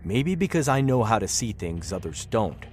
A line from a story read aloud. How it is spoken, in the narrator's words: Glenn answered curtly